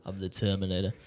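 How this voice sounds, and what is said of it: Imitates another person's voice. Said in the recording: “You sound like Trump ... Did sound like Trump. Terminator. ... You can do Trump, apparently.”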